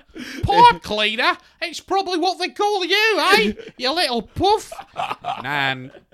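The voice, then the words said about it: Put-on Australian accent. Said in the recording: “Australian accent”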